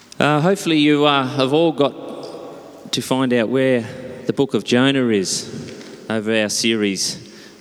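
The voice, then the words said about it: Strained, nearly lost voice. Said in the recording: “Please bear with my voice. A little bit too much excitement yesterday. ... my voice is gone”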